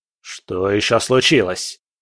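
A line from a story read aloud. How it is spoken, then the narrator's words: Impatient bark. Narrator (Russian): рявкнул Бобшильд с нетерпением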